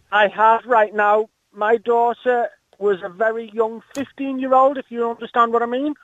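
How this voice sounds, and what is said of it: Scouse (Liverpool) accent. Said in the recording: “I can't do the Scouser accent.”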